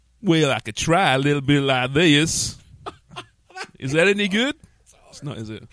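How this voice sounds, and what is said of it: Poor put-on Southern American accent. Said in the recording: “Not even like a Southern American? ... It's horrible.”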